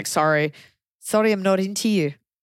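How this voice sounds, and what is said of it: Put-on South African accent. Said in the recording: “That was my South African accent. That is the hardest accent to do.”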